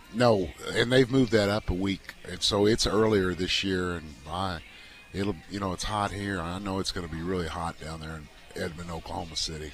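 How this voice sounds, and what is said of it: Strained, worn-out voice. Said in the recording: “Excuse my voice here. I think I've been yelling at my players too much.”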